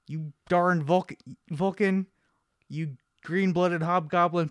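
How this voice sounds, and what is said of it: Angry old man character voice. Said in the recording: “how to impersonate people ... Just gotta be an angry old man and say something derogatory about Vulcans. That's Bones right there ... doing a McCoy impression”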